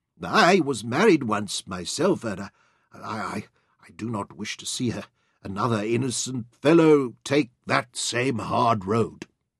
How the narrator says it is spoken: Penrod answered them in a quavering, unsteadied voice

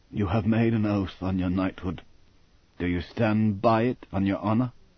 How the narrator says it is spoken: Sir Francis whispered to his son

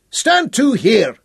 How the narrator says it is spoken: buzzards roar

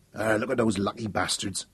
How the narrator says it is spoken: Ned Tyler muttered

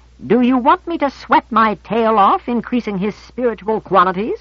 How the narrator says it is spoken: Azazel said indignantly

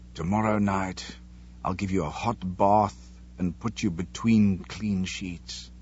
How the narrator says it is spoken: he whispered

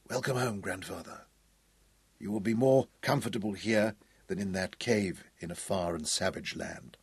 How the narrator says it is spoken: whispered

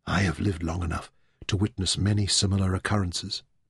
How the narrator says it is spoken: Demeter said softly

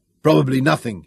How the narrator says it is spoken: grunted

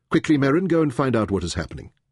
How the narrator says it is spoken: Taita ordered sharply

